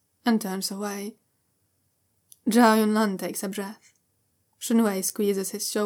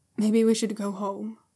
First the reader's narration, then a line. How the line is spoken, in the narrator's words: Shunwei says softly